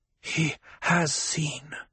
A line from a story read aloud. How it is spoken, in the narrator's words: Jessica whispered